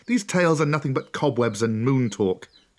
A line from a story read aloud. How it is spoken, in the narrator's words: Mowgli snorted